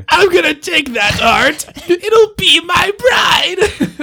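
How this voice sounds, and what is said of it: Put-on comic character accent. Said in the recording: “That was my Ricardio accent. ... I imitate the imitations.”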